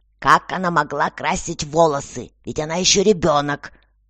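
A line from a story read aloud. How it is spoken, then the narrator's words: Irritated. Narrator (Russian): раздраженно сказала госпожа Беже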